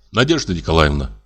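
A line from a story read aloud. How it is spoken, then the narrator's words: Plain. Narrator (Russian): сказал я ей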